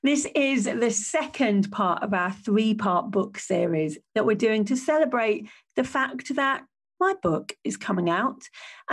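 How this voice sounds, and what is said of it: Croaky voice. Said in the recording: “My voice is a bit croaky today”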